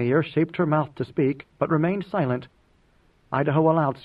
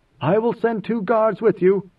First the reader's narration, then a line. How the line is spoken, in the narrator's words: Inmayer called out